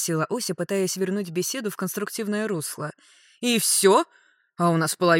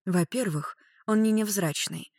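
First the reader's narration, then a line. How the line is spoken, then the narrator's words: Sighing. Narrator (Russian): вздохнула Клариса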